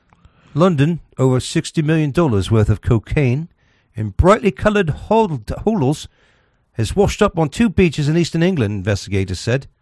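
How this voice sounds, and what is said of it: Put-on English accent. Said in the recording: “So whenever we had a story from England, we do it with an English accent.”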